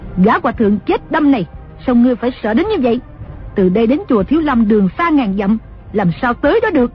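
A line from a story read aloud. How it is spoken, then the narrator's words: Angry. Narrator (Vietnamese): Đồng mổ tức giận nói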